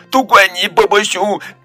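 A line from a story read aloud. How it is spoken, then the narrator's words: Crying sadly. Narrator (Chinese): 他伤心地哭了起来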